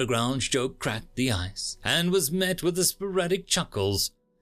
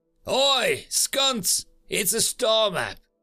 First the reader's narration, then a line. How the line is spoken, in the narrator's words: another undergraduate shouted